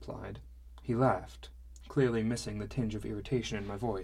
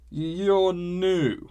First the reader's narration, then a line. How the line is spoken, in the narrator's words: he slurred